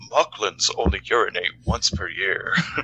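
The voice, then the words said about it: Imitates a TV character's voice. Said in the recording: “my Bortus impression”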